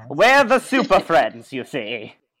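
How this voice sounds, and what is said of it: Old-time radio announcer voice. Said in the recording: “That was a really good radio voice.”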